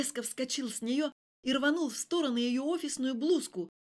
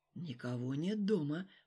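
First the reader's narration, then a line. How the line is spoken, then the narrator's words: Whisper. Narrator (Russian): прошептал он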